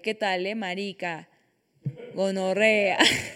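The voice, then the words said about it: Put-on Colombian Spanish accent. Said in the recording (Spanish): “Me encantó tu acento colombiano ... Los acentos son mi especialidad”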